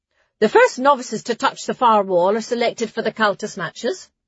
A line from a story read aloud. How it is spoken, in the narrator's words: Sister Talo spoke in a conversational tone